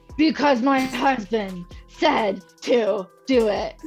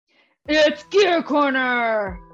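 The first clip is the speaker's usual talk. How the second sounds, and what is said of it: Deep wrestler announcer voice. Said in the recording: “in a deep like wrestler announcer voice”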